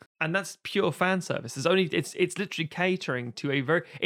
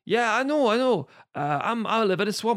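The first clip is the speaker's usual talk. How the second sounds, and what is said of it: Shrek-style Scottish accent impression. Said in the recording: “it's a different actor, but still Scottish accent.”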